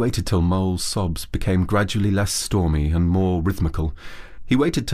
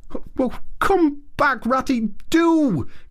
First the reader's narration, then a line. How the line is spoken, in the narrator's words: cried the Mole